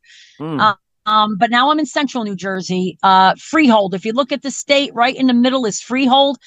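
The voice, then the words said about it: New Jersey / New York accent. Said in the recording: “that's obvious in your voice ... I can't hide the Jersey girl ... the New York accent creeps into there”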